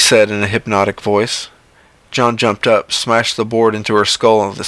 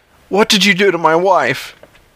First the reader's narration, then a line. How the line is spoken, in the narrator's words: his voice wavered and cracked